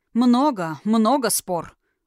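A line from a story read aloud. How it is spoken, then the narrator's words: Growl. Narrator (Russian): рыкнул Тхерайм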